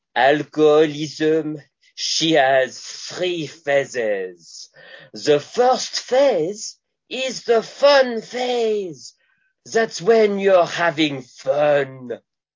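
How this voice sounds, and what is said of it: Put-on French accent. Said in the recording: “a thick French accent. I can't do a French-Canadian accent, but I can do a French accent”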